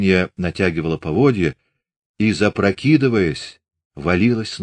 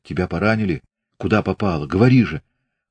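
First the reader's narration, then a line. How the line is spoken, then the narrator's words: Hoarse question. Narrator (Russian): хрипло спросил Григорий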